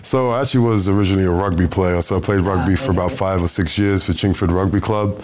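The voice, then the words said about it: Hybrid American-London accent. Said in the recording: “You're turning American on me... I can hear it. Sort of a hybrid American sort of London accent.”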